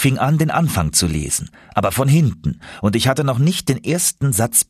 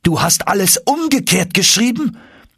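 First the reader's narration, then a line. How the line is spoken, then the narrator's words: Exclaimed. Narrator (German): rief er aus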